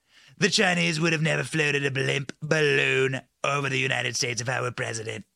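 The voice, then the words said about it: Imitates another person's voice. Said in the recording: “my Trump impression... We're going to get better at it.”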